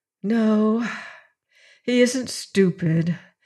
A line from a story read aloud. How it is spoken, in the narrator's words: said the woman with a sigh